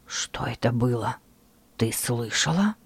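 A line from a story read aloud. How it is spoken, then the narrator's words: Quiet question. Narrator (Russian): Спросил он тихим голосом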